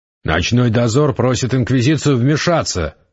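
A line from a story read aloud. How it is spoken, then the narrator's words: Bark. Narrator (Russian): рявкнул Гессер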